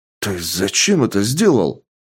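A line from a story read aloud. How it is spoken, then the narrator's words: Exclaim. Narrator (Russian): воскликнул Гена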